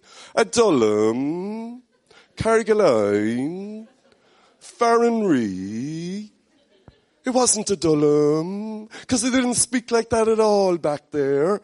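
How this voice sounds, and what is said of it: Cork accent, sing-song rising-falling intonation. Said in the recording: “I'm a Cork man ... Cork accent ... in Cork we kind of sing up and down, and we even in the one word or accent goes up and down, it's like the hills of the city”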